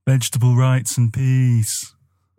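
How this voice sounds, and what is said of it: A pretty good impression. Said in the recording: “pretty good impression”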